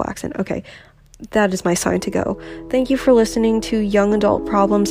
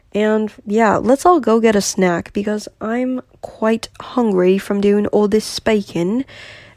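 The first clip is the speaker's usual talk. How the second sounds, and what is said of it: Deliberately bad put-on accent. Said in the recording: “That was a horrible accent.”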